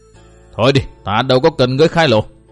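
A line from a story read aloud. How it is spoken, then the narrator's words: Stern voice. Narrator (Vietnamese): Tốc Đào nghiêm giọng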